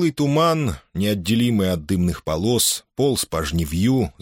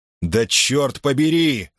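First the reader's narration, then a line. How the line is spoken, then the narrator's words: Yelled. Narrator (Russian): закричал Йорк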